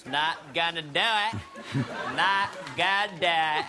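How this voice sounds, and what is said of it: Exaggerated George H.W. Bush impression. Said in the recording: “I'm watching you do your impression of me, and I gotta say, it's nothing like me. Bears no resemblance. It's bad. ... It's totally exaggerated.”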